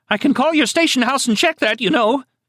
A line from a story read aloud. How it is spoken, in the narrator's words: she nearly shrieked